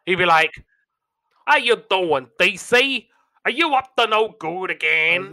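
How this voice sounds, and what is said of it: New York accent, Dibble impression. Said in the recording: “Dibble had like a New York accent”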